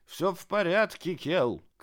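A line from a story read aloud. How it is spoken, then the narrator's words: Shouted. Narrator (Russian): крикнул он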